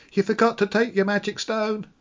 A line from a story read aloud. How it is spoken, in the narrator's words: a small child called out